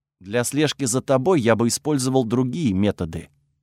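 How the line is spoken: Quiet interruption. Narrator (Russian): тихо перебил он меня

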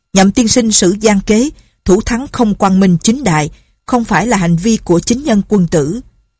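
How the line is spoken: Loud. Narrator (Vietnamese): Nhạc Bất Quần lớn tiếng nói

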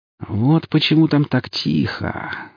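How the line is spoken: Beggar speaking thoughtfully. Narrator (Russian): задумчиво произнес нищий

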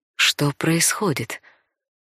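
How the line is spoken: Whispered. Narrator (Russian): шепнула

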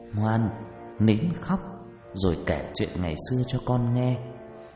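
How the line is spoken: Gentle soothing murmur. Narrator (Vietnamese): Bà Phương thủ thỉ

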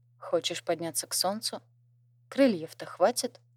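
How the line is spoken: Calm and confident. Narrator (Russian): Ордеон говорил спокойно и уверенно

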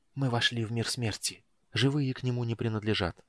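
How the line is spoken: Near whisper. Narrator (Russian): пояснил Рейслин почти шепотом

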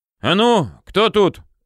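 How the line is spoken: Brisk shout. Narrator (Russian): бодро выкрикнул командир караула

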